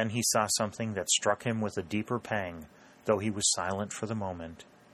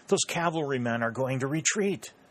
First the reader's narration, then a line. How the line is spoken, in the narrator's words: he cried